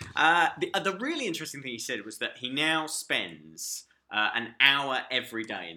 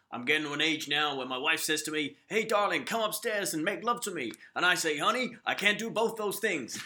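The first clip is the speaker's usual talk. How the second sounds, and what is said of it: Imitates another person's voice, poorly. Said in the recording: “that was a terrible Tony Campolo. That was a terrible Tony Campolo. I don't know what that was.”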